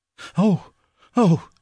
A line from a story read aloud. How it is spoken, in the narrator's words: cried